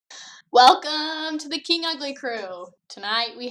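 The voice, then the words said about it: Game show host voice. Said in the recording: “game show host voice ... game show voice”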